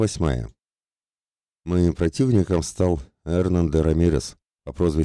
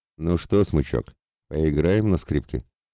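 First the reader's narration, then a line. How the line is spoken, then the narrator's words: Cold smirk. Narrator (Russian): Холодно усмехнулся дуэлянт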